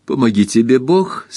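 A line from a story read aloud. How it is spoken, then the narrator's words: Laughing. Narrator (Russian): смеясь сказала Кристин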